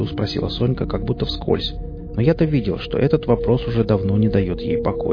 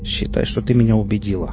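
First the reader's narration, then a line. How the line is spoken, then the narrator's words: Wry chuckle. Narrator (Russian): хмыкнул я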